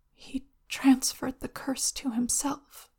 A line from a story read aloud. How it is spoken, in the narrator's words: Lan Zicui whispers